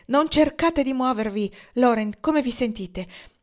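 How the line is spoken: Exclaimed. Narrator (Italian): Pocket esclamare

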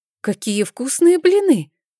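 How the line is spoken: Exclaiming. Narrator (Russian): воскликнула Эжени

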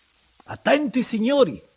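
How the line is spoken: Shouted. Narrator (Italian): gridò Bebè Silva

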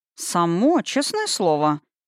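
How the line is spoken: Muttered. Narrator (Russian): пробормотал Таш

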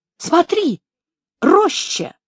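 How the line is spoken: Timid exclamation. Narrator (Russian): И тут же, вновь оробев, воскликнул

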